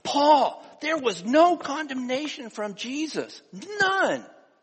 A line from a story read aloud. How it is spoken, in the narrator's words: Peter exclaiming